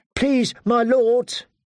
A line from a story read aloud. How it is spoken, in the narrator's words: she pleaded